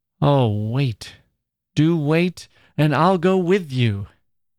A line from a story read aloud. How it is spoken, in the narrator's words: she called out